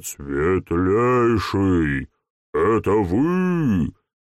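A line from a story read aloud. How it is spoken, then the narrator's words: Sudden sepulchral voice. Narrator (Russian): Федор Иванович вдруг эдаким замогильным голосом спрашивает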